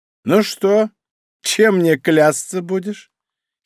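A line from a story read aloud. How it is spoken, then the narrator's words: Giggle. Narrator (Russian): хихикнула она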